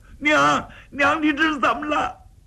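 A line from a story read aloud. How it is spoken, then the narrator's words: Loud wailing. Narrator (Chinese): 娘儿三个放声痛哭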